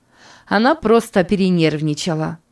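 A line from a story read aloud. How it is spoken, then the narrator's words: Irritated. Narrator (Russian): раздраженно сказала Берни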